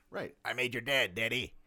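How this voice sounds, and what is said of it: Imitates another person's voice. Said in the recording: “my horrible Fonzie impression”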